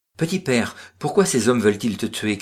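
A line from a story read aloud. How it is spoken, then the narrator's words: Shouting. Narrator (French): criait-il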